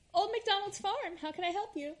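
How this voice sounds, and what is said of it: Customer-service phone voice. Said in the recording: “Phone voice is really good.”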